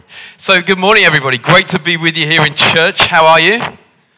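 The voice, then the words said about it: Liverpool accent. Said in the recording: “As you can tell from the way that I talk with my posh accent, I come from Liverpool.”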